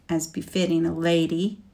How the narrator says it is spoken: she said bitterly

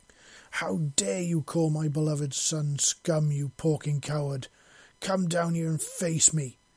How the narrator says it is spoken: she roared in a voice so fierce that it struck fear into even the hearts of the battle-hardened warriors present

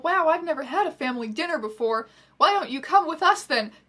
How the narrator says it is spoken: Dumbledore cried kindly

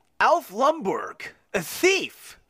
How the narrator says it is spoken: Frank exclaimed

